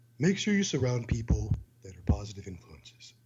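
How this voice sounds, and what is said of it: Imitated voice with unnecessary pauses. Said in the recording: “best impression of Jim Stepani ... You have to talk like this. You have to pause unnecessarily ... make things sound fucking French ... the Stepani voice”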